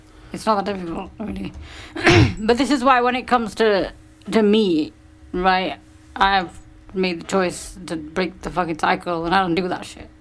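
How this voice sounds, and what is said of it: Croaky voice with vocal fry. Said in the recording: “My throat is all croaky. Got vocal fry going on.”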